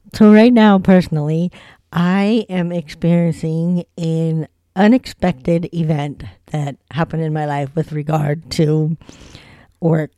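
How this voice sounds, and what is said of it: Voice audibly affected, unwell-sounding. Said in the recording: “as you can sort of hear in my voice, I'm having an allergic reaction”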